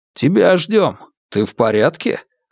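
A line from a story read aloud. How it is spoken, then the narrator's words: Plain. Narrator (Russian): спросил старший брат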